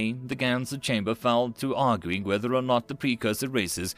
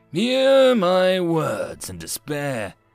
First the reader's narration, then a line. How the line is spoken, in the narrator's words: Speaks in loud spaces roared out with his mind